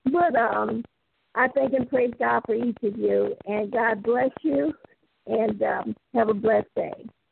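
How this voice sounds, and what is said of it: Slightly cracked, rough voice. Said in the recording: “my voice is a little cracked”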